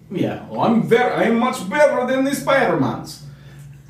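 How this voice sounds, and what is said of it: Put-on Russian accent. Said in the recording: “But in a Russian accent.”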